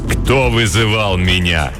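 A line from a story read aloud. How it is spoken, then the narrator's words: Menacing question. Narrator (Russian): грозно спросило темное существо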